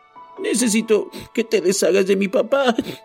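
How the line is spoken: Breaking voice. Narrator (Spanish): dijo con la voz quebrada

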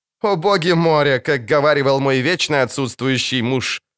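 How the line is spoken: Laughing. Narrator (Russian): рассмеялась она

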